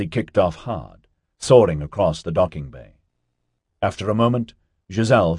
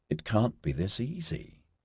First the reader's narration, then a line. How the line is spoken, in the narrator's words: she muttered